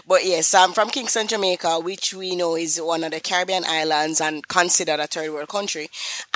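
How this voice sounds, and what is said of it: Jamaican accent. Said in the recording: “I am from Kingston, Jamaica ... that accent sound a little bit familiar”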